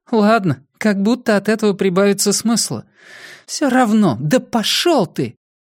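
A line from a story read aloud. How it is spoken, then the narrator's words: Groaning. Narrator (Russian): Дейл застонал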